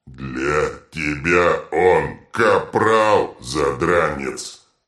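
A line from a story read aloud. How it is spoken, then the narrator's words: Troll growl. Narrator (Russian): рыкнул детрит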